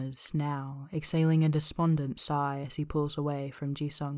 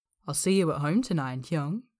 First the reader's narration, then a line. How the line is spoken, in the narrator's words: says, laughing as he playfully pushes